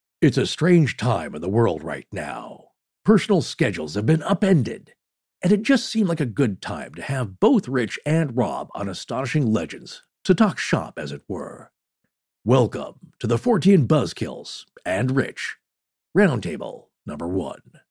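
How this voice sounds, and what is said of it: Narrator voice. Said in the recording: “Narrator voice. Do your narrator voice.”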